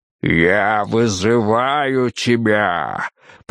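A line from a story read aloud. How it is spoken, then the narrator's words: Thunderous male roar. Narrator (Russian): прорычал мужчина так, что от голоса его, казалось, затрещали стекла и задребезжали струны клавесина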